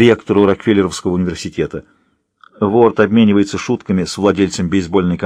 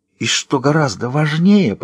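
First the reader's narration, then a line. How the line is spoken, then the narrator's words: Theatrical whisper. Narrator (Russian): продолжает театральным шепотом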